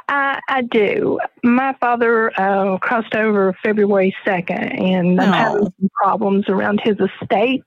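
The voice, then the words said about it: Southern US belle accent. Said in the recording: “listen to that accent. You do it so well. You're a belle, girl. ... you're a real one.”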